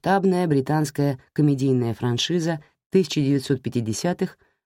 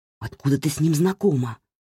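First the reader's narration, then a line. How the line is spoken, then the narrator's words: Hissed. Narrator (Russian): прошипел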